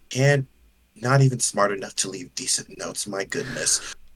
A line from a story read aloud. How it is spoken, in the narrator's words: he just kind of sighs like